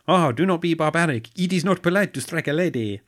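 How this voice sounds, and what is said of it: Bad put-on French accent. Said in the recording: “That was a terrible accent. ... Phonetically accurate. ... Aquaman does not like the French.”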